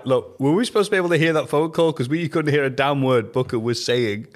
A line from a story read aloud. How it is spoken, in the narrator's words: Cole and Lola laughed because they said to Jack